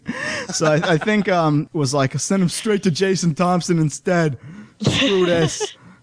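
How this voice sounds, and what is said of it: Imitates another person's voice. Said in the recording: “my Ed Chavez impersonation ... That's exactly how Ed Chavez sounds, exactly. Precisely.”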